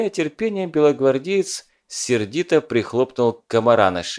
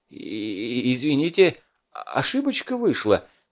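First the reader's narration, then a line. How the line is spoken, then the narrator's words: Babbling. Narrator (Russian): лепетал Фурманов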